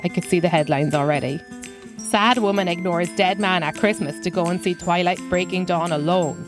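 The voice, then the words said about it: Irish accent. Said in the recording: “This is her real accent. She's Irish.”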